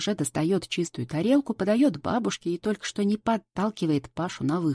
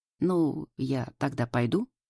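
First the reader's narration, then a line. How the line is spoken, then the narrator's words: Uncertain question. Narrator (Russian): неуверенно спрашивает Паша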